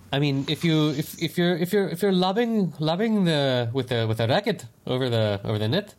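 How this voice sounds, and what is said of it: Put-on French accent. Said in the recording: “Why are you speaking with a French accent?”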